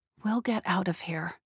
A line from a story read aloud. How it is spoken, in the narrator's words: she murmured to Mads' sleeping form